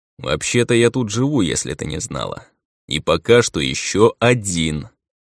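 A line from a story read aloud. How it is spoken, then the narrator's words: Stern, emphatic question. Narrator (Russian): выделил он последнее слово и довольно-таки строгим тоном спросил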